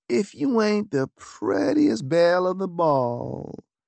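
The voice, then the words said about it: Exaggerated Southern accent. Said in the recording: “in an exaggerated southern accent”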